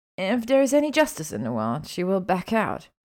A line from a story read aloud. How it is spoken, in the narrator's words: Hermione grumbled